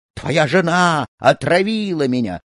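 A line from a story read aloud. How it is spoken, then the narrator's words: Shouting monk. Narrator (Russian): кричал монах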